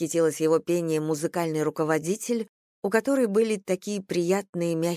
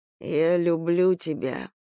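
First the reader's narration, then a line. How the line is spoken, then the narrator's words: Moaning. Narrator (Russian): простонал он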